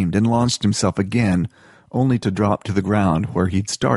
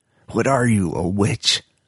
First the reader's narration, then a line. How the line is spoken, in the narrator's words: Spleen hissed at the woman